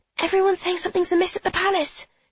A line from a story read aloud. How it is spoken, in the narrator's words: she whispers